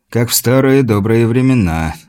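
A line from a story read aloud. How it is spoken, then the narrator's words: Sighing again. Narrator (Russian): вздохнул снова Тихий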